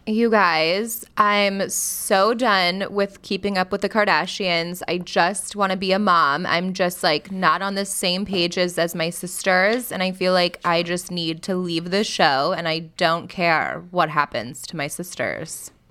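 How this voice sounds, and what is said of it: Kourtney Kardashian impression. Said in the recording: “She does an amazing Paris Hilton, Kourtney Kardashian... the best Kourtney Kardashian impressionist in all the land... show us, like, a little Kourtney Kardashian first... And that's Kourtney.”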